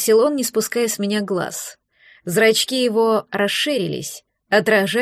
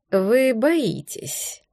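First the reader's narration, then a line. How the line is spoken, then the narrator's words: Soft, insinuating objection. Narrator (Russian): неожиданно мягко, вкрадчиво возразил Ферлин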